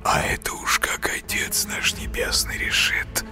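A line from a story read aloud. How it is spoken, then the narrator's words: Hissing. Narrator (Russian): прошипел Коля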